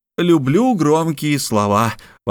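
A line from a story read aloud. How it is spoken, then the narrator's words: Exclaimed. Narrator (Russian): воскликнул Мишель Ардан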